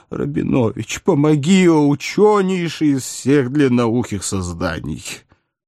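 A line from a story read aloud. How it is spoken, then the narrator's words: Faint moan. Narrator (Russian): едва не теряя сознание, простонал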